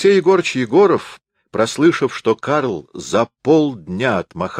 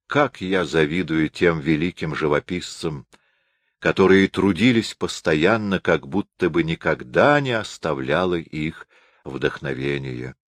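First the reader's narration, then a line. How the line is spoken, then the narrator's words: Sighing. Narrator (Russian): Он вздохнув, сказал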